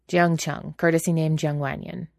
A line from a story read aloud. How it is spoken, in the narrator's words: he said gruffly